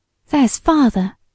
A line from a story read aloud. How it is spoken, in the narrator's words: exclaimed Ruth